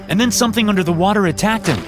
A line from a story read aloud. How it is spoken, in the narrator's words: I said desperately